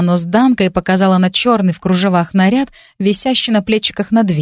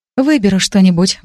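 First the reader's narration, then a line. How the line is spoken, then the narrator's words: Sighing. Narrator (Russian): вздохнула я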